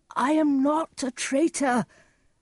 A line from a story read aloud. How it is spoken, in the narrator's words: Gloucester cried